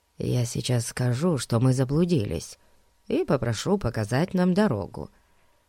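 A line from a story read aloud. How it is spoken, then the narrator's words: Whispered. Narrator (Russian): шепнул друзьям Фати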